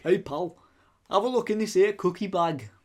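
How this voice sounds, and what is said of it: Put-on northern English accent. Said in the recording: “he was from up north ... I can't do northern accents ... Hull”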